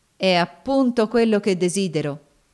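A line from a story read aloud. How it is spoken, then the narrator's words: Cold reply. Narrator (Italian): rispose Cassie freddamente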